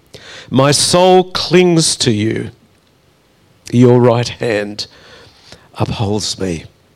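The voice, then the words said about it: Choked-up, emotional reading voice. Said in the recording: “I didn't expect to get all choked up reading that”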